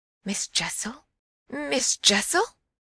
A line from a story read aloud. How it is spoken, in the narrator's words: with a gasp I echoed it